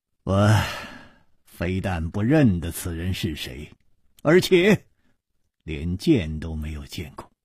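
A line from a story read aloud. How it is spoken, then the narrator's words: Sighing. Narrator (Chinese): 楚留香叹道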